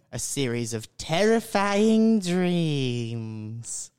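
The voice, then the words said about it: Spooky theatrical voice. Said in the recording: “can you do that voice again?”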